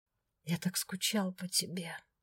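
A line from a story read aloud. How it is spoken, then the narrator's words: Whispered. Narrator (Russian): прошептал он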